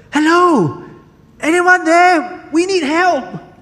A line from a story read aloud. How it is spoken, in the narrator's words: shouted